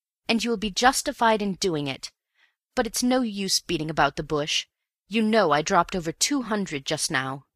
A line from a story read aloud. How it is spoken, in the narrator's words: I cried bitterly